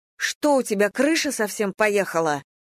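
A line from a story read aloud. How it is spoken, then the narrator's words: Angry shout. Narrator (Russian): зло выкрикнула Надя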